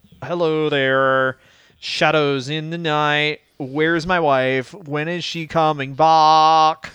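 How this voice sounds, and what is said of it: Mopey emo voice. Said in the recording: “that emo impression”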